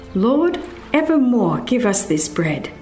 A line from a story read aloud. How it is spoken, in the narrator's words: some of his hearers exclaimed